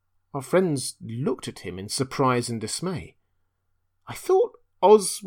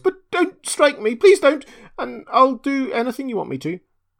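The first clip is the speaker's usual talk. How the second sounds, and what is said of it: Trembling, frightened voice. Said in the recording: “said the little man in a trembling voice.”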